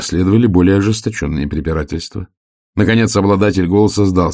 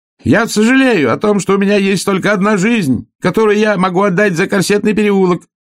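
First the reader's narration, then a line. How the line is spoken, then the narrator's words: Shout from behind furniture. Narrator (Russian): выкрикнул голос откуда-то из-за шкафа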